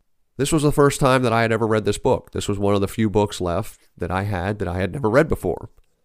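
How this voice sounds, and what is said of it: Slightly sick, congested voice. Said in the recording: “let me apologize for the way my voice sounds. I've caught a little bit of a cold, a little bit under the weather”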